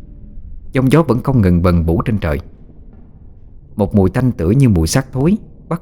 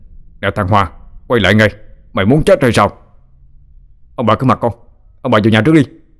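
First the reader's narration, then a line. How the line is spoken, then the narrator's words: Loud shout. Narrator (Vietnamese): Ông hét lớn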